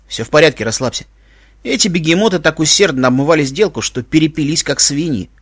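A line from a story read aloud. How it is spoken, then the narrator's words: Smirking snort. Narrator (Russian): хмыкнул Иван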